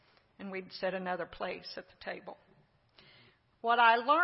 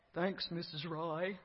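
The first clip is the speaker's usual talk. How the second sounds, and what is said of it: Eddie Haskell impression. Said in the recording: “in his best Eddie Haskell voice”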